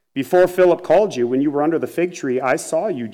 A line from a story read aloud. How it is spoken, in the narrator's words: Jesus answered